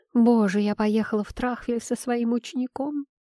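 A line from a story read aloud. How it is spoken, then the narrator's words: Groaning. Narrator (Russian): простонала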